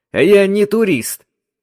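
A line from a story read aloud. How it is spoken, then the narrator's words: Angry. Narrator (Russian): сердито ответил Сансен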